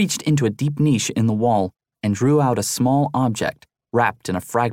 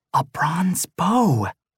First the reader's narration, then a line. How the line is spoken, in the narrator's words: she whispered